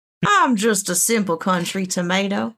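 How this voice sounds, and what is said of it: Put-on Southern US accent. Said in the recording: “I wish Rob had a southern accent.”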